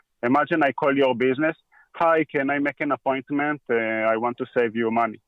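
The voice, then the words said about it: Foreign accent heard as Indian. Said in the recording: “with my accent, uh, the people think that I'm calling from India or something”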